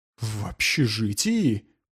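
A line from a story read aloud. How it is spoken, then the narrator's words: Hissed. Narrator (Russian): прошипел Джонсон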